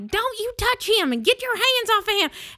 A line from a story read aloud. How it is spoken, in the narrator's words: wives screaming